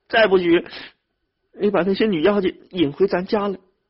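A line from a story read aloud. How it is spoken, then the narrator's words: Crying. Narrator (Chinese): 兰花 哭着说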